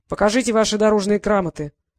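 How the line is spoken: Harsh unpleasant croak. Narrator (Russian): каркнул ушастый неприятным голосом

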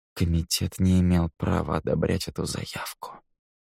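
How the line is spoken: Barely audible, very quiet. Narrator (Russian): произнес Кевин так тихо, что Нил едва разобрал слова

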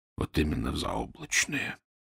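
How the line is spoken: Whisper. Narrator (Russian): прошептал Фандорин

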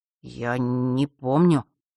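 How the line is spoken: Terrified mumble. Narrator (Russian): наконец пробормотал Фэш, бледнее от ужаса

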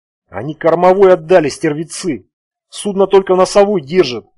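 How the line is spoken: Groaned. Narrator (Russian): простонал он

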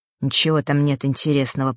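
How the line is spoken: Grumbling mutter. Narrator (Russian): пробурчал Фэш

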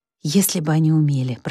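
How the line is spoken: Whisper. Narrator (Russian): прошептала рыжая

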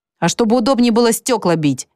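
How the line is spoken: Indifferent reply. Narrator (Russian): безразлично ответил Гиббон

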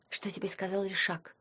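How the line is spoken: Whispered. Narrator (Russian): шепнула Ваньке Таня

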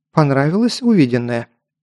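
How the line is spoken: Plain. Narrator (Russian): спросила она

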